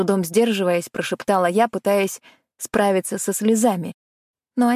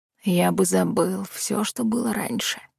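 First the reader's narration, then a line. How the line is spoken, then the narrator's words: Whispering. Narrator (Russian): зашептал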